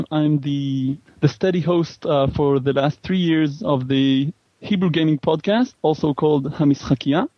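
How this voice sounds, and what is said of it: Israeli-accented English. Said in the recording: “if I pronounce it with my accent ... I'm from Israel”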